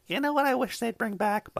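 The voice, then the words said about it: Deliberately bad impression of his wife. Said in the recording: “worst wife impression ever”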